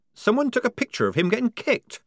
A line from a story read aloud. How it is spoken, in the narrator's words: squeaked Polly, drenched in a sudden horror